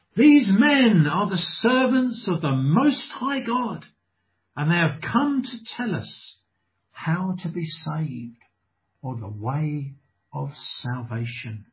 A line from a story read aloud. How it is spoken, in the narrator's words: shouting